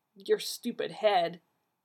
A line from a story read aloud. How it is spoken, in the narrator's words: Archie muttered